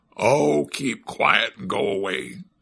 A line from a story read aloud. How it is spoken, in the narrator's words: said one of the hermit crabs in a grumpy voice